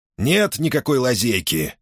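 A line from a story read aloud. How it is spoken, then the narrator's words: Grumbling. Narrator (Russian): проворчал Стак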